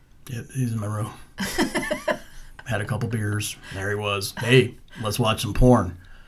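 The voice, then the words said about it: Beetlejuice character impression. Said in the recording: “That was a really good Beetlejuice impression.”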